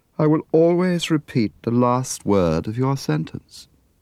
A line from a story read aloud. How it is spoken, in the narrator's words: answered in her sleepy voice